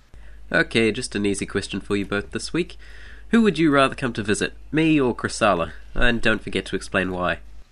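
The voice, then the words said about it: Slightly South African-sounding accent. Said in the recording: “He sounds South African. ... your accent is awesome ... He sounds slightly South African, though. ... I think South African has like a twang to it.”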